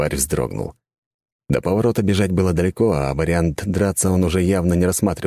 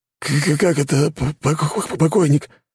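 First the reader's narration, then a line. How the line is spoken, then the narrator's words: Trembling, stammering voice. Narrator (Russian): дрожащим голосом пролепетал он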